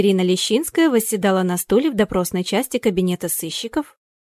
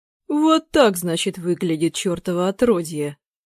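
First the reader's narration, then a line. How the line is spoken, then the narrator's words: Too calm. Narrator (Russian): Слишком спокойно сказал господин Орловский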